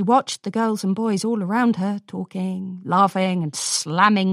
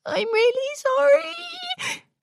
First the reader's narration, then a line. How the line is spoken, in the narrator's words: whimpered a tiny voice